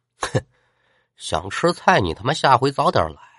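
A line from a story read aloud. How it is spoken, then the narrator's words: Stout student grumbling mutter. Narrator (Chinese): 其中一个 腰圆的同学 嘴里嘟嘟囔囔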